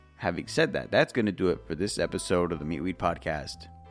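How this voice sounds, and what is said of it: Unusually deep voice. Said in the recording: “my voice is a bit deeper”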